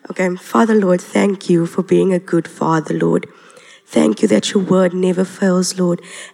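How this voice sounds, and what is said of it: Voice sounds a bit sick. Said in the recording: “I sound a bit sick”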